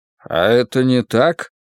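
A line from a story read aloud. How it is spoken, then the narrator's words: Gloomy question. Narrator (Russian): мрачно спросил я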